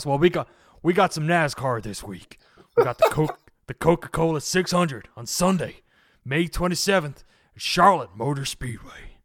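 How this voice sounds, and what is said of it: Put-on American NASCAR announcer accent. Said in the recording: “You don't want my NASCAR voice, do you? ... My American ... do the voice.”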